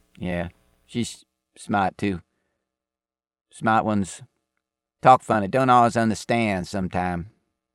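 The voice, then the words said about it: Accented clipped speech. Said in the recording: “Speaking of your the way you talk, your accent ... Your accent, the way you tend to leave out ... you talk in abbreviate”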